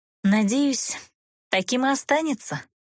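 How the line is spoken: Mysterious sigh. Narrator (Russian): загадочно вздохнула девушка

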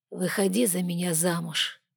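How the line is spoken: Sigh, then spoken. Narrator (Russian): Егор вздохнул, произнес

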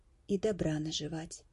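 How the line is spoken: Soft whisper. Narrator (Russian): тихонько прошептал Десперо

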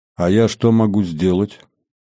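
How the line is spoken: Uncertain question. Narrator (Russian): неуверенно спросил он

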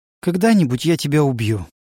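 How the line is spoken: Sighing. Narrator (Russian): вздохнула Фарилис

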